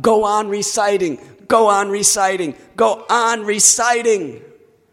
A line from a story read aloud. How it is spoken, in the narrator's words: He called out